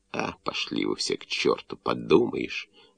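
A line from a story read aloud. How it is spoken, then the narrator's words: Snapping retort. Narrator (Russian): огрызнулся Рульяк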